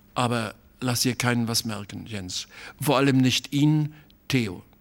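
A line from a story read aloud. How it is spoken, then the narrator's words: Hesitant voice. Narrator (German): sagte er noch mit zögernder Stimme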